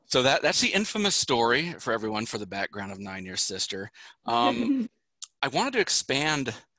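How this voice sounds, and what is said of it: American accent. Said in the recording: “We love the American accent.”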